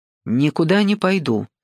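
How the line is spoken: Angry. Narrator (Russian): сердито сказала она

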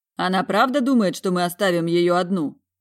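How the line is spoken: Scoffing snort. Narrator (Russian): хмыкнул Мор

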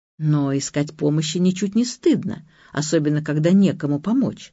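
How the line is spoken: Gentle, tender. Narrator (Russian): ласково, почти нежно сказал писатель

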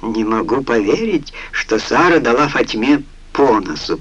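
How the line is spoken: Spoken through laughter. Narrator (Russian): проговорил сквозь смех

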